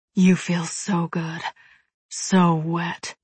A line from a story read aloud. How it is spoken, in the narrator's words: he murmurs against me